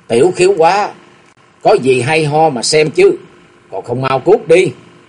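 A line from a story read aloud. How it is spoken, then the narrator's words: Big man's loud shout. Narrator (Vietnamese): đại hán lớn tiếng quát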